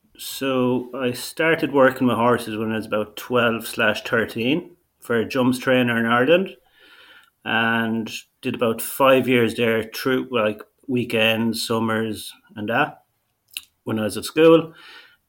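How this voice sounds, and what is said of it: Very thick accent. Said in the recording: “we might need a translator for you ... it is a very thick accent, and that is what listeners will pick up on straight away”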